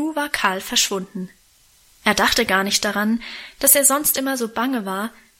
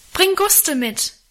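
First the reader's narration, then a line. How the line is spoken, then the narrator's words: Calling into the dark. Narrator (German): rief ich ihm in die Dunkelheit nach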